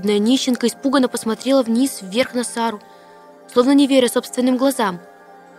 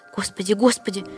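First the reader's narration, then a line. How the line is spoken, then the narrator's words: Hoarse whisper. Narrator (Russian): шептала она хрипло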